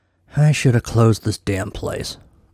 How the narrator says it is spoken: Milo muttered with less finality than he would have hoped

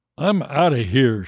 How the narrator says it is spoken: exclaimed

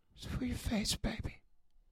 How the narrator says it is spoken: said quietly

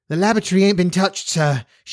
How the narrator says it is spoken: explained breathlessly

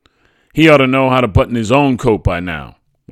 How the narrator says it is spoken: my mother barked

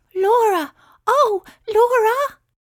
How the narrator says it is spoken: she cried out with relief

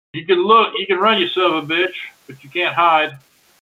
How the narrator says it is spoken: yell out

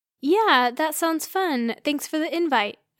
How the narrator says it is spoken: I said

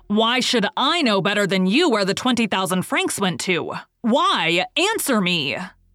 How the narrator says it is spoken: In a voice growling and rolling like thunder, he roared

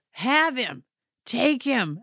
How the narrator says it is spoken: I laughed really hard

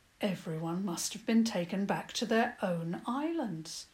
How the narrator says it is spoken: Papa said in a low voice

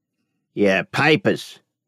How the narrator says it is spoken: he rasped

